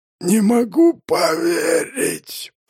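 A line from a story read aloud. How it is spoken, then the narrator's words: Hoarse wheeze. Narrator (Russian): прохрипел Ланкастер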